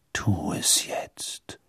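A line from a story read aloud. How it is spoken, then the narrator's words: Father whispering. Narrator (German): flüsterte die Stimme seines Vaters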